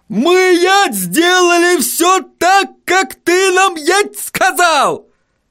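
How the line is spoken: Sudden yell. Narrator (Russian): заорал вдруг господин Тюльпан

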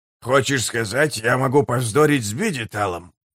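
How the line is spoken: Grumbling. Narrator (Russian): проворчал Геборик

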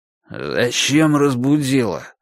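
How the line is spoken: Irritated man. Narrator (Russian): раздраженно сказал мужчина

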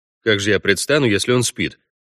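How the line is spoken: Grumbling. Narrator (Russian): проворчал Парт

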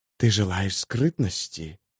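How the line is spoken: Whispered. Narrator (Russian): зашептала Телорест

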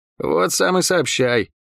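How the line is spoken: Muttering. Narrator (Russian): пробормотал Лук

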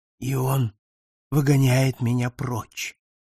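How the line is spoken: Whisper. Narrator (Russian): прошептал он

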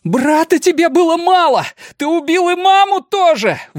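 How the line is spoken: Shouted out. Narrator (Russian): выкрикнул Олли

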